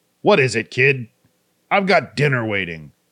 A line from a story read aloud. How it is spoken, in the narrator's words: barked